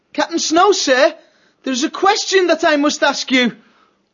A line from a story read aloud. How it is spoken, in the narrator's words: Matthias called out